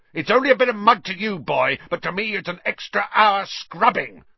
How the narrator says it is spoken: shouted Filch

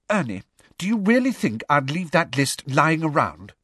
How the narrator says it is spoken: said Hermione testily

